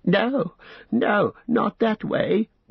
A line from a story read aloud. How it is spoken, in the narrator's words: wailed Smeagol